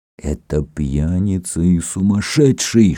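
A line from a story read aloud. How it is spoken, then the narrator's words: Furious whisper in ear. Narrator (Russian): шептал в ярости Софра на ухо наследнику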